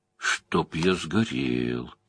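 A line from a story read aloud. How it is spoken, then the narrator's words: Whisper. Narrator (Russian): прошептал Мэтт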